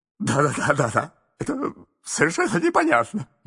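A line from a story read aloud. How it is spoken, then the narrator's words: Muttering. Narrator (Russian): бормотал мистер Адамс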